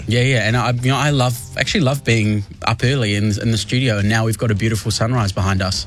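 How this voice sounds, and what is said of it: New Zealand Kiwi accent. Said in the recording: “you haven't picked up even a tinge of the American accent ... I would never lose my Kiwi accent ... the Westie comes out a little bit more when I'm back, because West Auckland”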